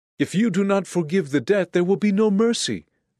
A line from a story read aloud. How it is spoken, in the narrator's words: the debtor pleaded